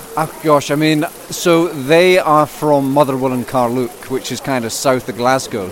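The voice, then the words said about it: Scottish accent, Edinburgh-like, slightly English. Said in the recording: “that accent is definitely north of the border ... my accent is Scottish ... the accent's definitely not Leicester. With Scottish heritage, it sounds sort of Edinburgh ... it could be anywhere between Glasgow and Dundee and Edinburgh ... it sounds like Edinburgh because it's Scottish mixed with English”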